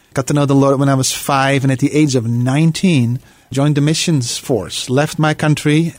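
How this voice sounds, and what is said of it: Slight Dutch accent. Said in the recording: “I have a little accent. I talk funny ... born and raised in Holland”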